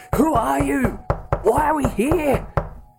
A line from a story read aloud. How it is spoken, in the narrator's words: Mary screaming